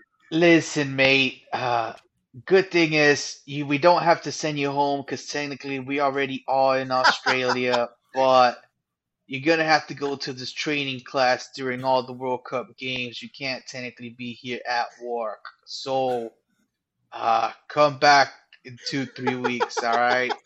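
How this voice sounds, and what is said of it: Put-on Australian accent drifting British. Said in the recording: “The accent was actually quite good for like a couple of seconds there... Trying to imitate an Australian just slips into an English accent real easy... once you get into the mate, it's like, fuck, my brain just goes British”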